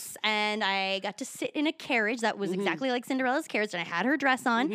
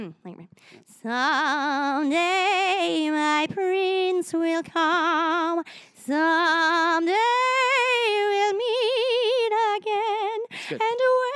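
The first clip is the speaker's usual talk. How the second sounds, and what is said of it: Vibrato Snow White singing voice. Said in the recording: “do the vibrato voice? ... Probably not as well as Snow White”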